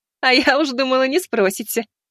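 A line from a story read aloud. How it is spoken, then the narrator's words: Laughing woman. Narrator (Russian): рассмеялась Ревина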